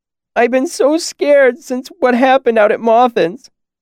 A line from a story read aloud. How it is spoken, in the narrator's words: sobbed